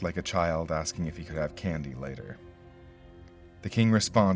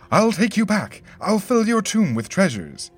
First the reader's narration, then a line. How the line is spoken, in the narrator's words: he begged